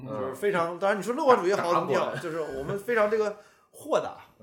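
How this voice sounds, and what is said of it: Noticeable Northeastern Chinese accent. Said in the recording (Chinese): “我的这个东北口音还是很明显的”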